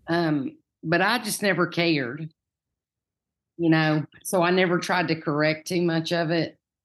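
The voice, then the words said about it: Distinctive regional accent. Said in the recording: “your accent ... Most people in Farragut don't have this accent ... Nobody in my family talks like this.”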